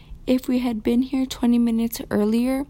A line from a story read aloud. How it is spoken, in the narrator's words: said the boy